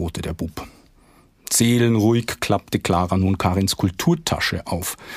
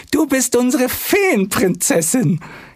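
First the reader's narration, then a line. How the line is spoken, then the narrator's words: Happy shriek. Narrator (German): kreischte Clara beglückt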